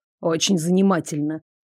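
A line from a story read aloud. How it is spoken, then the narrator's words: Scornful snort, interrupting. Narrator (Russian): Дарек фыркнул, оборвав меня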